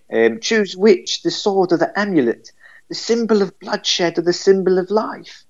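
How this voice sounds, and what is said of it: Put-on English accent. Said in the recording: “affect an English accent”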